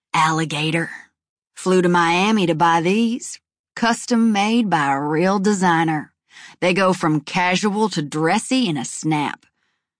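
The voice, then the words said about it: Lazy southern drawl. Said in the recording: “drawls in a lazy southern accent”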